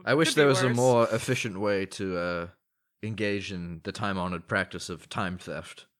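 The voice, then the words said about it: Put-on accent, slipping. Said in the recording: “my accent's gone a bit pear-shaped”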